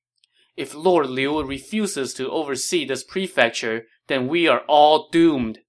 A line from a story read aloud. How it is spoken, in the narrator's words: they cried